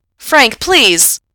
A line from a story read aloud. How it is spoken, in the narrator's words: Gerard shouts